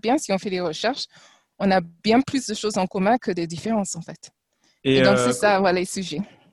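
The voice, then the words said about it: Slight English-speaker accent in French. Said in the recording (French): “un petit accent euh, anglophone”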